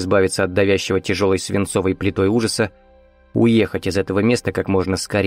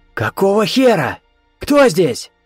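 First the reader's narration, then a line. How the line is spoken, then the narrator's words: Hoarse croaking shout. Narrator (Russian): Крикнул он, и собственный голос напомнил карканье смертельно больной вороны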